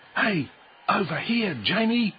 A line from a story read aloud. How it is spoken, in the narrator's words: shouted Michael